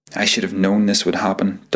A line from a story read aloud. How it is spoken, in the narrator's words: Dalton said